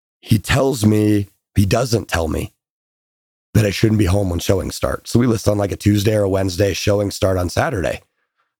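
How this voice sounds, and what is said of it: Hoarse, fading voice. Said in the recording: “I'm losing my voice a little bit.”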